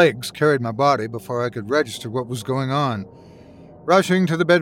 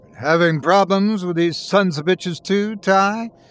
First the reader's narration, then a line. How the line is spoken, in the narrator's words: he bellowed down the phone